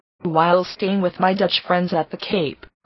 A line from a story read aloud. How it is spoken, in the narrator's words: replied she